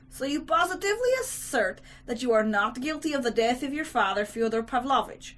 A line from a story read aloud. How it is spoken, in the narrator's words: the district attorney asked gently but insistently